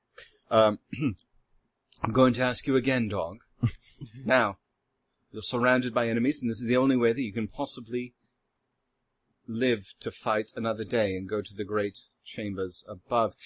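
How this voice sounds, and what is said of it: Put-on villainous British accent. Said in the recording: “I'm going to affect the equivalent of the British accent for evil”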